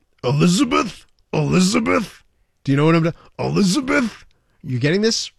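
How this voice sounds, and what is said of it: Imitates another person's voice. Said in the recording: “I'm gonna do a voice here ... It's Randy Macho Man Savage ... You sound like what's his name from that cartoon in the 70s ... That's your Macho Man?”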